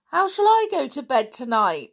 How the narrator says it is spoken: wailed Anne

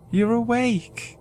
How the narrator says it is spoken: Jenny said tearfully

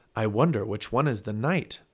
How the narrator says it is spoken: said Jack

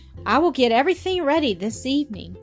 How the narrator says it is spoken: said Dorris eagerly

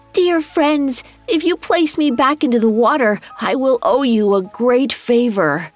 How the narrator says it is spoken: The salmon called out

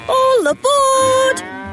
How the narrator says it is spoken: shouted Thomas

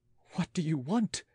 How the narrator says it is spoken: several voices gasped with the accent of a panic

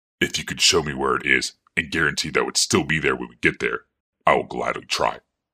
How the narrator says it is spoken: grumbled the warlord

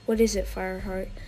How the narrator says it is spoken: she asked

